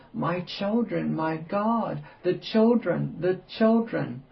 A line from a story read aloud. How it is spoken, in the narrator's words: open her lips and gasp